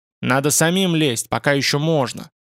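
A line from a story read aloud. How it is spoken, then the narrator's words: Angry. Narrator (Russian): Дреймер сказал зло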